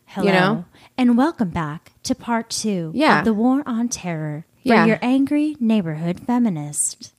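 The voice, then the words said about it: Mock serious public radio voice. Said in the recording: “Is that your NPR voice? ... it kind of sounds scary. ... Every once in a while, I turn on my NPR voice”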